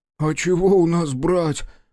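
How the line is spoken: Whine. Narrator (Russian): проскулил жердяй

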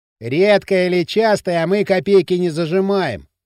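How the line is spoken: Loud, meant to be overheard. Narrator (Russian): сказал Дрым громко так, чтобы Кирилл услышал

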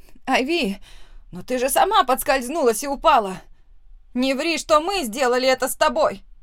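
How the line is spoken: Shouting. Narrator (Russian): закричала Присцилла

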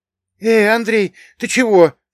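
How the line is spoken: Anxious question. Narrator (Russian): взволнованно спросил Богдан

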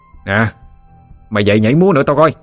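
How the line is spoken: Harsh gritted shout. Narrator (Vietnamese): Cậu chàng gằn giọng quát lên

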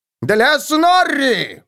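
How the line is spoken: Roar. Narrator (Russian): взревел он

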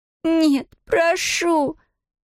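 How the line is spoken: Sobbing plea. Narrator (Russian): Зия, всхлипывая

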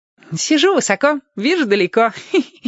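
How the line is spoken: Giggling. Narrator (Russian): хихикнул Владик

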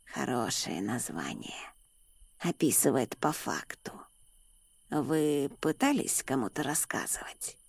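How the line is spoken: Raspy smoker's voice. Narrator (Russian): Голос у человека был сиплый, как у курильщика с огромным стажем

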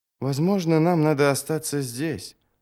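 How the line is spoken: Mutter. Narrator (Russian): пробормотал он

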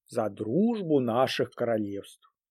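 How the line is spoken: Solemn toast. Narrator (Russian): король торжественно сказал

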